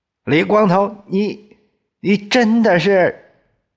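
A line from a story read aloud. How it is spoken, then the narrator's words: Loud shout. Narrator (Chinese): 他深深的吸了一口气，大叫起来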